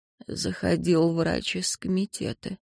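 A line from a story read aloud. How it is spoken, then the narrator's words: Hoarse with a cough. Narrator (Russian): произнесла Ванесса сипло и кашлянула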